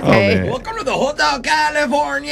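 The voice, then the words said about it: Sings in put-on Mexican accent. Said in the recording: “sang Hotel California by the Eagles in a Mexican accent ... Yeah, I just did it.”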